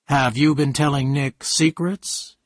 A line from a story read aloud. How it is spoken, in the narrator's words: he asked